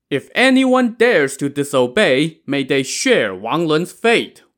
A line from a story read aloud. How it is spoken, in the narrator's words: Wu Yong shouted